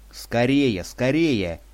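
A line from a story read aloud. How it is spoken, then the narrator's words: Frantic desperate screaming. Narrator (Russian): истошно вопил я, чувствуя, что мои силы стремительно иссякают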